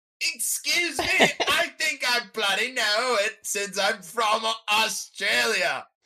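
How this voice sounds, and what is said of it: Put-on Australian accent. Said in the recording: “this is just my Aussie... my Aussie accent”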